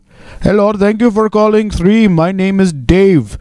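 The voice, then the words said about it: Exaggerated put-on foreign accent. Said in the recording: “here we start with the racism. All right, fucking Charlie Chan over here... accents do not reflect my views”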